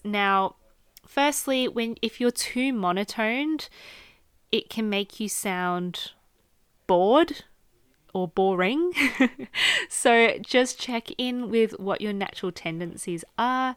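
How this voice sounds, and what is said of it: Australian accent. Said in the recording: “I am Australian, so my natural inflections just based on my accent”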